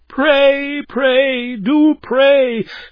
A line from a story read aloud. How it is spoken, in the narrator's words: cried Ellen